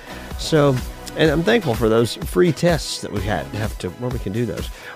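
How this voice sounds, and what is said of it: Sick, congested-sounding voice. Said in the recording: “I sound sick”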